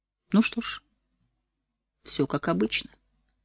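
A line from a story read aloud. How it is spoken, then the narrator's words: Quiet. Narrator (Russian): тихо проговорил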